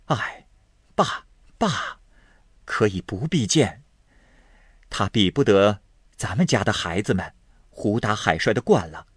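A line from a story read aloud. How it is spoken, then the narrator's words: Laughing. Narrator (Chinese): 尤氏笑道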